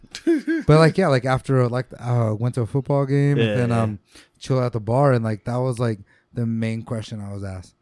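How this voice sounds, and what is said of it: American accent. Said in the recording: “they obviously know I'm not from there with my accent”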